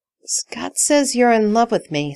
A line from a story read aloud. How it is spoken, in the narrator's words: Stiles groans